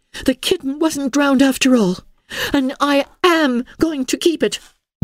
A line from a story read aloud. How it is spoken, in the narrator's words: she cried